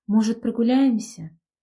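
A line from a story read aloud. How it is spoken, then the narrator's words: Soft but insistent. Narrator (Russian): Старалась сказать это мягко, но вопрос все равно прозвучал настойчиво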